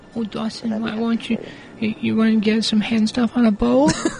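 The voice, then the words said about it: Baby-talk voice. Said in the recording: “That actually sounded like you were talking to a baby.”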